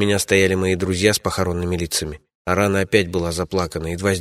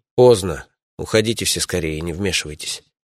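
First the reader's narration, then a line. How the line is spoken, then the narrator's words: Quiet. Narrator (Russian): сказал я негромко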